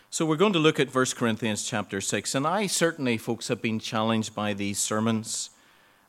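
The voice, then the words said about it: Slightly croaky, hoarse voice. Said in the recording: “My voice is a bit funny today ... I was coughing last night ... It doesn't sound too bad at the moment ... a bit croaky at times”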